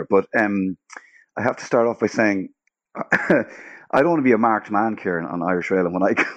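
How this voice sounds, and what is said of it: Rough, unwell-sounding voice. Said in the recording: “excuse my voice. I'm a bit under the weather”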